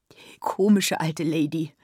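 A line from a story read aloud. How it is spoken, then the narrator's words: Laughing. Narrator (German): lachte Benny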